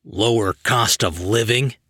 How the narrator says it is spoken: Elasto Man grumbled

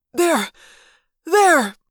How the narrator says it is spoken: the human controller rasped weakly

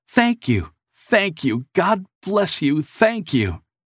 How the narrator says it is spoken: the man cried as he ran after Nicholas

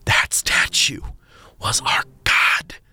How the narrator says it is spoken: Gatekeeper Lindsay whispered, tears streaming down his face

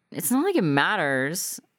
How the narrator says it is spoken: she slurred over her third bottle of wine and second pack of cigarettes

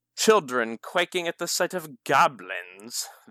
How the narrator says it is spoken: the young man sneered

